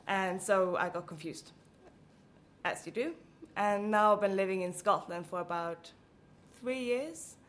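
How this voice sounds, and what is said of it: Blended Swedish, American, British English accent. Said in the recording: “my accent was actually quite American ... my teacher preferred the British accent ... my English accent is a lovely blend of all these places”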